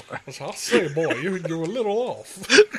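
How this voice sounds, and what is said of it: Cartoon rooster character voice. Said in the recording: “start doing that fucking rooster voice”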